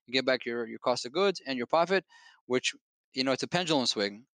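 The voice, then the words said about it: Foreign accent, very fast speech. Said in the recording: “my accent. I apologize for that. I feel among friends, so I speak even faster.”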